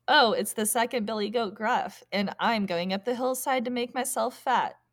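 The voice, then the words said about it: Medium-pitched billy goat character voice. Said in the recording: “do a medium voice ... My voice is medium.”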